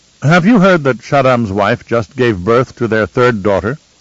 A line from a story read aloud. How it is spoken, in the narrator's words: Kylia snorted